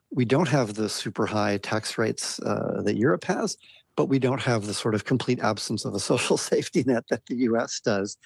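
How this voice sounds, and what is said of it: American accent. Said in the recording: “from my accent, you can hear that I'm a migrant, and I migrated from America”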